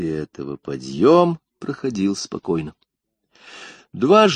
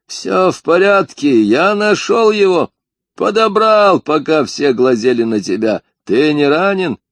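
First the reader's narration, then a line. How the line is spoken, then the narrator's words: Shouted. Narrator (Russian): Керк крикнул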